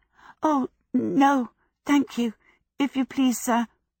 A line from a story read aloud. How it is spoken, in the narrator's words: Sophie stammered